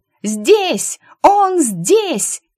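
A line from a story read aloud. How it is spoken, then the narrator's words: Rogue shouting. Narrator (Russian): закричала шельма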